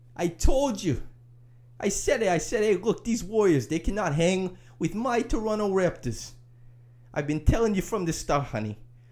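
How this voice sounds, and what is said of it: Vague put-on non-specific accent. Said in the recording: “random accent guy, who the accent can be attributed to any region you like because it is not a specific accent.”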